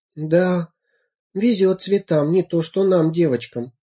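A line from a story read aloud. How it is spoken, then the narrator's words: Sighing. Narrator (Russian): вздохнула я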